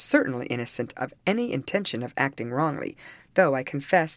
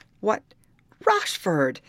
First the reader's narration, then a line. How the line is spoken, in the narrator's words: exclaimed the captain